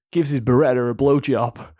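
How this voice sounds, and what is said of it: Put-on American accent. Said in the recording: “you do an American accent?”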